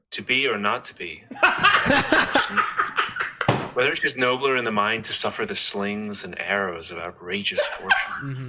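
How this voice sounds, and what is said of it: Put-on American accent. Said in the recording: “do the American accent ... Hamlet as an American guy”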